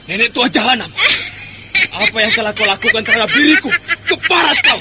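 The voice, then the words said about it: Angry shouting. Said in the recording (Indonesian): “Tidak perlu marah dengan teriak-teriakku gitu”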